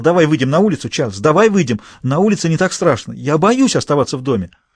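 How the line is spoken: Sudden scream. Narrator (Russian): Она вдруг закричала

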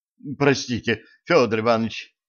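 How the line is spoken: Fervent exclamation. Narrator (Russian): истово воскликнул Скворец

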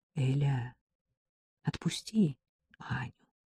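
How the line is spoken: Gentle request. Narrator (Russian): попросил Максим ласково

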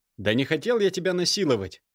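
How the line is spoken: Barking. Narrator (Russian): рявкнул он

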